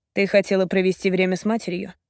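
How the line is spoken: Cool voice. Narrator (Russian): прохладным голосом произносит Роман

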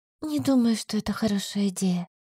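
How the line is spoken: Quiet whisper. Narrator (Russian): прошептала тихо

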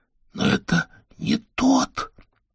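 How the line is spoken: Hoarse. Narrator (Russian): И хрипло добавил

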